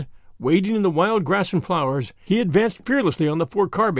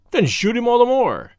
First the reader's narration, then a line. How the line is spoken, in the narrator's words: cried the poet impatiently